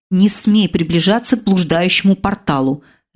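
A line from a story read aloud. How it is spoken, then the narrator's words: Barked into ear, female. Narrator (Russian): Рявкнула она мне в другое ухо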